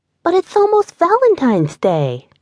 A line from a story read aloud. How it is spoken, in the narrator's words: the girl exclaimed